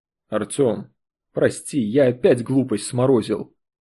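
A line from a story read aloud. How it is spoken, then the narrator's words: Quick. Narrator (Russian): быстро произнес журналист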